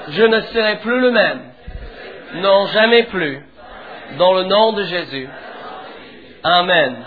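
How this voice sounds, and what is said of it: English accent speaking French. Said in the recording (French): “j'ai un petit accent, non, un grand accent ... Je suis d'Angleterre.”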